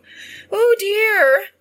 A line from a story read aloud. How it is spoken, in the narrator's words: cried